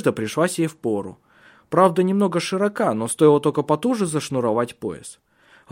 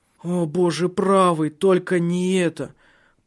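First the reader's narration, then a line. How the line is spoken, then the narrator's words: Groan. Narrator (Russian): простонала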